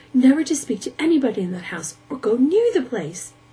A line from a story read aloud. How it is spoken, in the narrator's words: said the mother, flushing indignantly